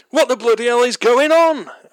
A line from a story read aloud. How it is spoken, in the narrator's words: Alf shouted